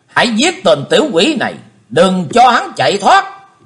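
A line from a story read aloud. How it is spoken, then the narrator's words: Thunderous shouting. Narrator (Vietnamese): Huyết Hồn Kiếm Quỷ quát tợ sấm rền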